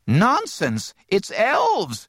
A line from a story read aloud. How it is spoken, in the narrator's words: crowed her grandmother excitedly